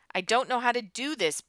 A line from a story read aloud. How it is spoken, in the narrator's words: Buzz shouted